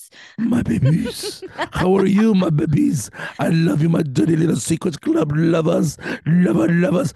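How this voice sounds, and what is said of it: Husky, partly lost voice. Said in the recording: “with almost a voice, just not fully. I have a sexy voice now.”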